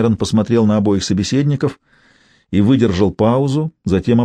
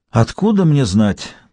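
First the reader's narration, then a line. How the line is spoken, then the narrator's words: Sighing. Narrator (Russian): вздохнул Бокс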